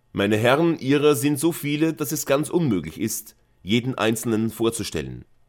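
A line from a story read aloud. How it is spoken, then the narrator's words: Loud, forced jolly general. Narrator (German): sagte der General laut, indem er sich Mühe gab, möglichst lustig zu erscheinen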